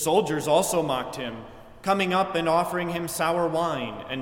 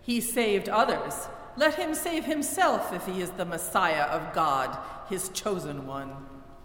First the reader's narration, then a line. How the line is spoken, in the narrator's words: the leaders scoffed at him and said